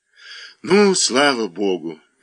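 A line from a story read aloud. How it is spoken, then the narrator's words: Sleepy babbling. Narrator (Russian): лепетала она сонным голосом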